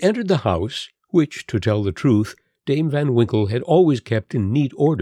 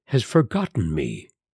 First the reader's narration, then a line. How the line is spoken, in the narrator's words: sighed poor Rip